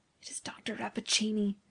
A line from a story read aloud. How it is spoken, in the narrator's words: whispered the professor